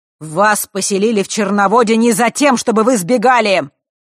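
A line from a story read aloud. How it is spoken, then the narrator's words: Thundering voice. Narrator (Russian): Вновь прогремел голос Черной Королевы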